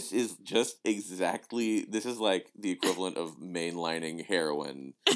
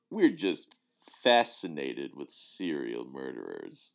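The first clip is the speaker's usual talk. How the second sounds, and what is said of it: Very deep, creepy voice. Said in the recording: “this guy's just got this very deep, creepy voice”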